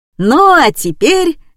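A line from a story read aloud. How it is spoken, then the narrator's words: Joyful exclamation. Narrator (Russian): радостно воскликнул Женя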